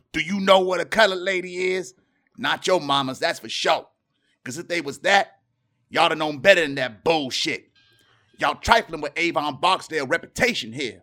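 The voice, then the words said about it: Impression of a TV character's voice. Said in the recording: “another good impersonation”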